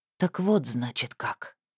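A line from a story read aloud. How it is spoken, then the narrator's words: Whisper. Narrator (Russian): прошептал юноша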